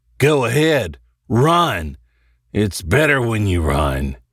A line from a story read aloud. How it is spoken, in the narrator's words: he growled